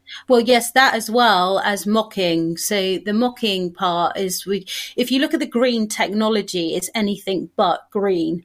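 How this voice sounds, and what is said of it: British London accent. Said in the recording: “I love your accent. I was out to London several times ... Here's the deal with your accent. You just said mock or mark.”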